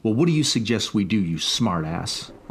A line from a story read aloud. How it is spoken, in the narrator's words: Uncle Freddy snapped